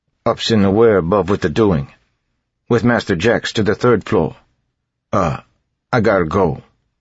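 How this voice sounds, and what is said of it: Thick eastern accent. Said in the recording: “in a thick eastern accent.”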